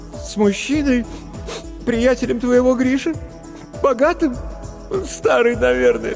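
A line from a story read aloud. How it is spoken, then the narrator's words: Sobbing. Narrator (Russian): всхлипнула Маша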